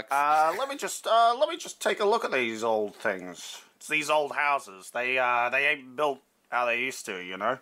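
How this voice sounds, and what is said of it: Cartoon character voice like Ham. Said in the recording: “Are you Ham from Toy Story? ... I wasn't sure what accent I was going to use, but this is the one we're using now.”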